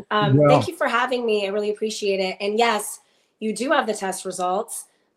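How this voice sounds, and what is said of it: Voice sounding off from a cold. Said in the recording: “I'm getting over a cold, so if my voice sounds weird, that's why.”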